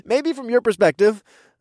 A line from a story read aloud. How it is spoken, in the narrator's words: I chuckled